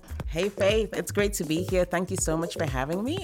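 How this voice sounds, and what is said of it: American-sounding accent. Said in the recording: “I like your accent. It's like very American.”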